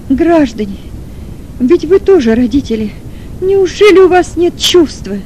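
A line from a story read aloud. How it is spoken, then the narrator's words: Sobbing scream, mother. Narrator (Russian): Кричала с рыданием мать Маргариты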